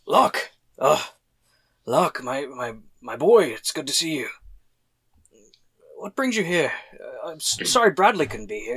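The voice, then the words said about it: Made-up character voice. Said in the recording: “I don't remember how Luke did his voice. So... I'm going to make up my own.”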